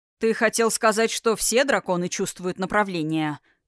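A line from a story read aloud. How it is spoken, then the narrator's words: Restrained irritation through teeth. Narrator (Russian): процедил Тхирайм, с трудом сдерживая вспыхнувшее раздражение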